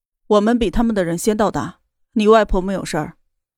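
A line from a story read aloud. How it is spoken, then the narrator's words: Calm, flat. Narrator (Chinese): 严立浩淡淡的说道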